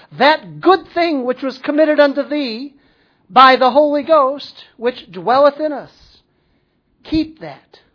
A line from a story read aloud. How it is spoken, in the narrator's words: he says